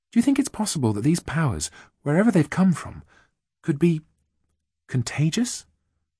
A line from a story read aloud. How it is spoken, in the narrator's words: Then softly she said